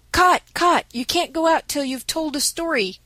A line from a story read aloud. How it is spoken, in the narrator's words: cried the boys